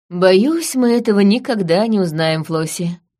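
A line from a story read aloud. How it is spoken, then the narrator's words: Sighing. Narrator (Russian): вздохнул Гарыш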